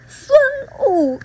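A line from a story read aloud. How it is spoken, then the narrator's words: Loud shout. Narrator (Chinese): 银角大王 大声喊道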